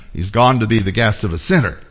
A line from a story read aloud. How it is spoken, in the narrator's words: All the people saw this and began to mutter